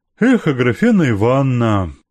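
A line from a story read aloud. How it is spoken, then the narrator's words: Lazy sighing repetition. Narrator (Russian): повторил он лениво, вздыхая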